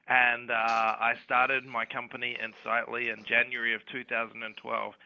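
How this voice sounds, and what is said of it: Western Australian accent. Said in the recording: “I grew up in Perth in Western Australia, which you can probably tell by my accent.”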